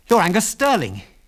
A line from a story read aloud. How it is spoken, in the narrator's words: he blurted out